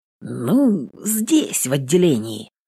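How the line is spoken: Hesitant. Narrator (Russian): неуверенно сообщает

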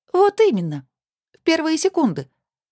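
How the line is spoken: Exclaiming. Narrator (Russian): воскликнула Алина

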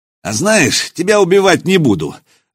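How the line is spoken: Declared after laughing. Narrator (Russian): заявил он, отсмеявшись

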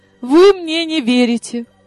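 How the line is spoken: Offended. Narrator (Russian): обиделась я

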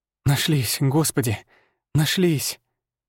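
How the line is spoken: Tearful whisper. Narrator (Russian): прошептала она, глядя на нас сквозь слезы

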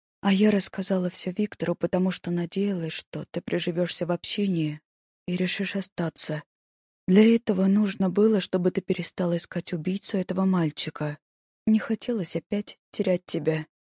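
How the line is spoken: Quiet. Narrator (Russian): Алиса тихо сказала

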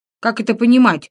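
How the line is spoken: Angry question. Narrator (Russian): злобно осведомился я

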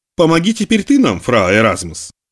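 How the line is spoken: Calm businesslike tone. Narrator (Russian): произнес фра Лодегер спокойным деловым тоном

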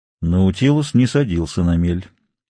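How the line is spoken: Cold reply. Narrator (Russian): холодно ответил капитан Немо

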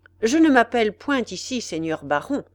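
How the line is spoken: Firm voice. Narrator (French): répondit d'une voix ferme

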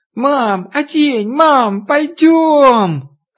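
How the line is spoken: Girlish squeal. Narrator (Russian): Катя по-девчоночи запищав

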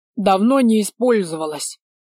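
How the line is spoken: Mumbling, mouth full. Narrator (Russian): прошамкал бессмертный с набитым ртом

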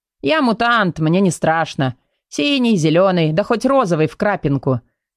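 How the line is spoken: Snort. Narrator (Russian): хмыкнул Тим

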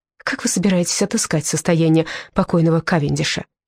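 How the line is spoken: Plain. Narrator (Russian): спросила я

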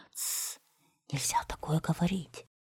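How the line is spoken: Frightened whisper. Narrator (Russian): его мать страшно перепугалась и прошептала

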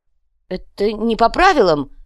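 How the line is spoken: Howling. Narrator (Russian): взвыл Инций

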